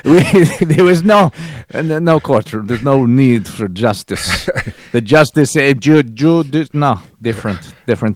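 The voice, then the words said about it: Bad put-on Russian accent. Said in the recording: “My worst Russian accent ever.”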